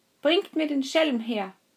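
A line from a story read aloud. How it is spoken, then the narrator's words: Judge calling out. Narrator (German): der Richter, der rief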